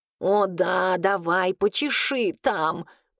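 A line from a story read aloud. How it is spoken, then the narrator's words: Blissful moan. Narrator (Russian): простонал котяра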